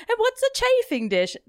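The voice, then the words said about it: Bad put-on British accent. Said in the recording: “my terrible British accent”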